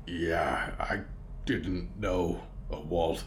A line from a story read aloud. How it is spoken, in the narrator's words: Mort rumbled